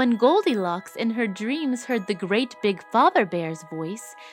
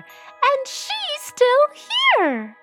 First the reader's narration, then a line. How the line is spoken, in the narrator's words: squeaked the baby bear